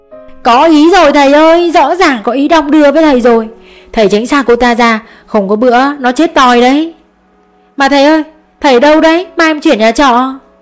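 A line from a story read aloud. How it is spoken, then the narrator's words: Laughing, shouting. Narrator (Vietnamese): Đám sinh viên ở dưới không ngừng cười, hét lên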